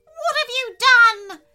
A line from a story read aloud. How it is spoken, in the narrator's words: wailed